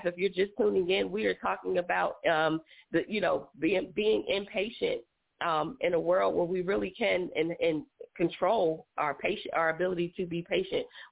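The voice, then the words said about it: Hoarse, strained voice. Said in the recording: “you know I'm losing my voice”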